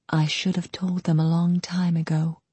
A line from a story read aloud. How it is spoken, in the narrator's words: she whispered